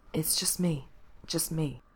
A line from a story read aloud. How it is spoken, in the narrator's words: Mikey whispered, like he'd already been repeating it for a little while